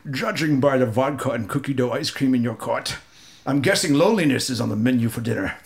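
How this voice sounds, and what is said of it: Sean Connery impression. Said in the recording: “I'm just going to do Sean Connery ... I'm going to do my best impression again.”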